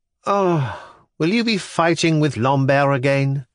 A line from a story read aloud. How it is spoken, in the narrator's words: the boy observed uneasily